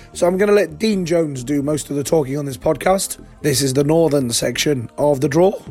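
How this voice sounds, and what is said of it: Hoarse, fading voice. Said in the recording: “as you can hear, losing my voice.”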